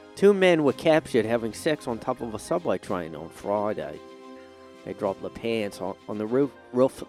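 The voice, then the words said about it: Bad put-on Australian accent. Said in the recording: “I went into an Australian ... I was just stick with the Aussie accent ... I can't stop doing accents and they're all bad”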